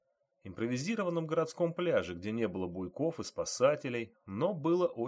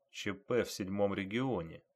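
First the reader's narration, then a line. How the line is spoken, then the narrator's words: Quiet. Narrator (Russian): тихо сказал он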